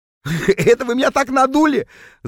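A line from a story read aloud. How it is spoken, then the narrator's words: Loud laughter. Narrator (Russian): захохотал Норберт, когда наконец понял, в чем дело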